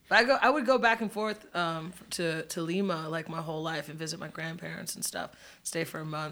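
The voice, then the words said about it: Speaks with a noticeable accent. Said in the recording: “I don't know why I'm talking to this accent either... accent.”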